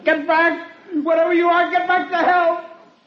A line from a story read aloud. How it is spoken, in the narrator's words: I lost my head and I screamed at it